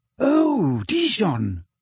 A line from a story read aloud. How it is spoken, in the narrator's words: said Hermione excitedly